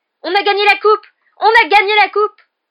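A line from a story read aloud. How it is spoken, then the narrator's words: Breathless group yelling. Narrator (French): les joueurs de Gryffondor se laissèrent descendre vers le sol en hurlant à perdre haleine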